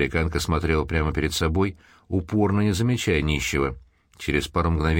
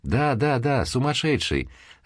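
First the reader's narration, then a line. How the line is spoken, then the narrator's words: Man laughing loudly. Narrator (Russian): расхохотался мужчина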